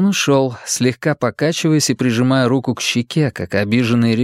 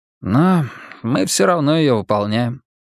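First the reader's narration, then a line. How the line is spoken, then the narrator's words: Sigh. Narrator (Russian): вздохнул он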